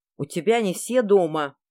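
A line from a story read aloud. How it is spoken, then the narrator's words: Wolf's growl. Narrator (Russian): прорычал волк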